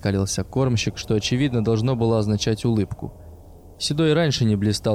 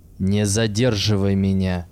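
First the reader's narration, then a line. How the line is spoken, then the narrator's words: Vicious growl from behind. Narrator (Russian): злобно прорычал сзади Седой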